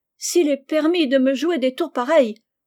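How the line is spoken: Exclamation. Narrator (French): s'écria-t-elle

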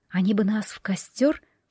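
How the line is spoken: Whispered question. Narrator (Russian): шепотом спросила я у Ивана

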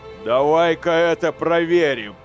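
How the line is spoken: Booming voice. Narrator (Russian): прогремел брат-сержант Сириил

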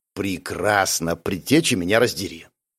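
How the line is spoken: Muttered. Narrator (Russian): пробормотал я

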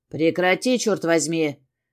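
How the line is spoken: Harsh bark. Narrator (Russian): рявкнул я

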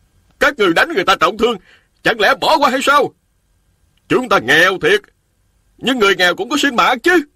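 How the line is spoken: Loud, men and women. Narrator (Vietnamese): 3 nam phụ lớn tiếng nói

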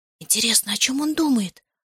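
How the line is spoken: Whispered. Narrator (Russian): шепнула Зоя

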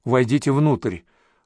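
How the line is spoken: Girl whispering. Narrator (Russian): прошептала девушка

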